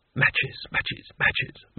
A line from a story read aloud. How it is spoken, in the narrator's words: madly to himself under his breath